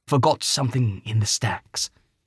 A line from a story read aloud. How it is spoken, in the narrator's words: he whispered